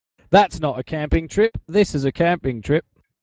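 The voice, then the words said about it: Put-on English accent. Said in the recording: “that was an English accent, wasn't it?”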